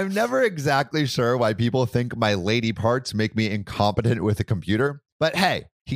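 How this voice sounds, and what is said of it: Usual voice. Nothing is said of it.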